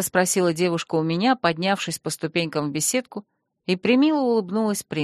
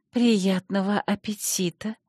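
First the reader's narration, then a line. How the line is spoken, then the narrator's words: Languid, annoyed breathy voice. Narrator (Russian): томно выдохнула горничная, явно злясь на его равнодушие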